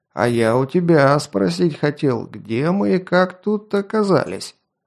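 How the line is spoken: Drunken man's declaration. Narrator (Russian): пьяным голосом заявил маньяк

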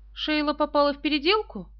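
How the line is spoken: Sharp question. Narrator (Russian): Пэм Грант резко спросила

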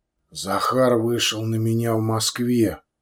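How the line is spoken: Quiet. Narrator (Russian): негромко произнес

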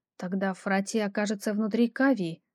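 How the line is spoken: Thoughtful mutter. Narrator (Russian): задумчиво пробормотала я

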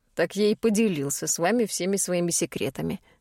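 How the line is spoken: Scoffing snort. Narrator (Russian): хмыкнул тот

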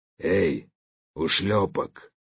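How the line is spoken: Hoarse call. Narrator (Russian): позвал хриплый голос

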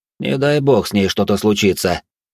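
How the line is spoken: Cold tone. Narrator (Russian): произнес я холодным тоном фирменной визитной карточкой Василиска

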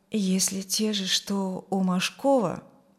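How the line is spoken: Quiet. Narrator (Russian): тихо сказал Юрген

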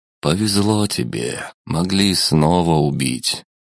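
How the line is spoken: Sigh. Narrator (Russian): вздохнул Михаэль

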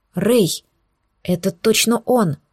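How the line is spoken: Hissing. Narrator (Russian): зашипела

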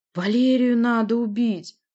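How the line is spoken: Moaning. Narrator (Russian): простонал Рык

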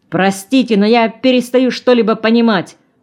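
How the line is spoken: Shouting. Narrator (Russian): уже кричал Балахонов

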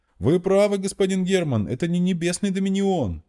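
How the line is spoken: Joyful shout, gnome. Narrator (Russian): радостно закричал гном

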